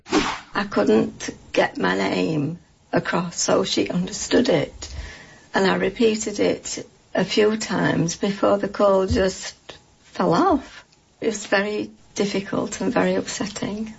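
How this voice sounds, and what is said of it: British accent, slightly slurred speech. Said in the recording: “her speech has been slurred ... As you may have guessed from the accent, ... lives in the UK”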